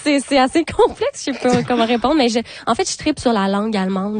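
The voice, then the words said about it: Québécois French accent. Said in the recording (French): “c'est sûr que votre accent le dit”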